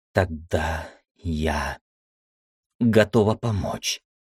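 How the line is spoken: Quiet. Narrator (Russian): тихо сказала Света

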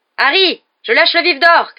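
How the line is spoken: Shouted. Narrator (French): cria Dubois

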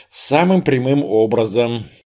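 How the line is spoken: Sighing. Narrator (Russian): вздохнул я

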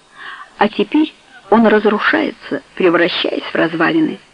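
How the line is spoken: Thoughtful. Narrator (Russian): задумчиво сказала Каро

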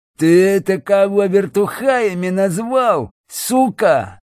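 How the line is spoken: Hiss. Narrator (Russian): Прошипел один из них

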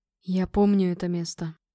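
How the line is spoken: Quiet, trembling with emotion. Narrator (Russian): тихо сказал скалолом, его голос дрожал от эмоций

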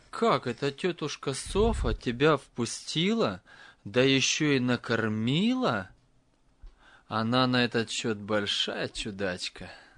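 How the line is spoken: Laughing father. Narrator (Russian): И отец впервые после смерти Нелли рассмеялся и сказал

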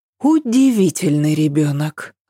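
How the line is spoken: Sighing. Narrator (Russian): вздохнула она

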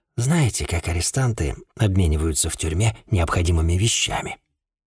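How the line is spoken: Hoarse chuckle. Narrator (Russian): Я хрипло усмехнулся

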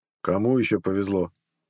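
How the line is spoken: Grumbled. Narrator (Russian): проворчал Харалд

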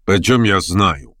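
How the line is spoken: Somewhat rude. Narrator (Russian): несколько грубо ответил Петр Степанович

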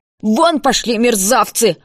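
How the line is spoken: Old woman yelling. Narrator (Russian): орала старуха

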